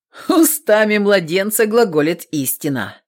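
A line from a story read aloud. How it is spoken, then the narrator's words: Chuckling. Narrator (Russian): хохотнул Степан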